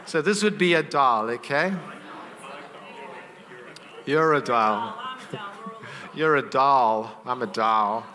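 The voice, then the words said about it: Speaks with a noticeable accent. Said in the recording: “Sorry, it's my accent.”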